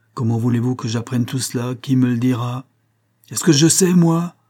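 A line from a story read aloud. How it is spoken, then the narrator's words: Impatient, feverishly angry shout. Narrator (French): s'écria l'entraîneur impatienté, car la lourde stupidité de Hargraves jetait le bouillant James Conyers dans une colère fiévreuse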